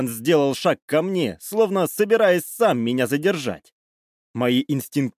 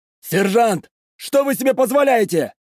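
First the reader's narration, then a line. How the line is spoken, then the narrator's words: Lieutenant exclaiming. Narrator (Russian): воскликнул лейтенант Петров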